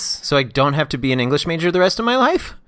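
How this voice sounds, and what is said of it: Pitch rising at phrase ends. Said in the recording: “Why does my voice keep going up like this? ... That's my intonation?”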